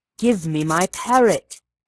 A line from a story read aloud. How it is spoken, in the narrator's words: he cried in an imploring voice